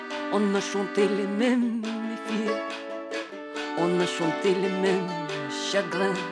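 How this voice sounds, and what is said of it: French sung with Liverpool accent. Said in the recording (French): “vous aurez sans doute du mal à suivre les paroles, bien qu'elles soient chantées, si, si, en français, mais avec un accent qui doit être celui de Liverpool, probablement”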